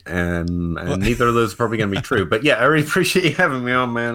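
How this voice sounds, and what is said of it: Kentucky accent. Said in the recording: “you had this awesome accent ... This is just what people in Kentucky sound like. ... That's the Kentucky accent ... Genuine Kentucky accent”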